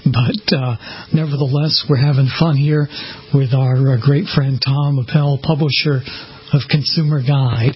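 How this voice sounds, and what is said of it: Hoarse, laryngitis-affected voice. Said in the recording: “I have a little bit of laryngitis that I'm battling”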